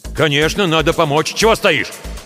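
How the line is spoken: Snapping retort. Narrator (Russian): Огрызнулся барин

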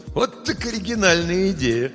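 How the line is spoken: Laughing. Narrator (Russian): Соня хотела разозлиться, но неожиданно для себя рассмеялась

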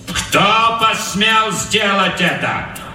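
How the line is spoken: Loud question. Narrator (Russian): громко спросил капрал

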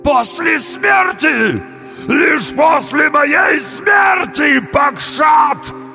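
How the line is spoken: Trembling bull's wail. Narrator (Russian): завопил бык, весь дрожа

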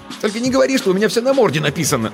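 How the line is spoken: Snapping, barely able to speak. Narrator (Russian): огрызнулась я, едва обретя способность членораздельной речи

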